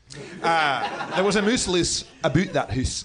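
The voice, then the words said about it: Put-on Scottish accent. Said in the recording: “if you're Scottish, you know”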